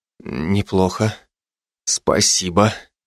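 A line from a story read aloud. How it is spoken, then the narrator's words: Forced out. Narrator (Russian): выдавил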